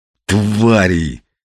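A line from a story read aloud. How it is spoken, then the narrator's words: Strained, forced out. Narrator (Russian): выдавил Ренат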